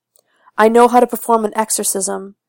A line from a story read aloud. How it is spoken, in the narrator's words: shouts through the floorboards